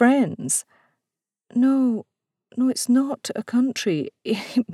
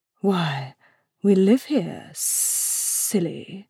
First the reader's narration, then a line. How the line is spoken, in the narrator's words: hissed the adder